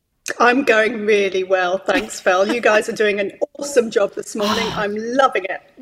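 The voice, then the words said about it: Proper English accent. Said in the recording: “You speak the King's English too. You've got a very nice accent.”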